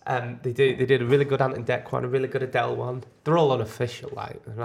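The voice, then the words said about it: Congested voice from a cold. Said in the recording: “Too full of cold.”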